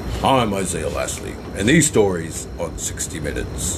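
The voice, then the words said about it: Serious TV news presenter voice. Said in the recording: “That's my 60 Minutes voice. ... That's impressive. ... I can't talk serious because my demeanor changes when I have to talk like that.”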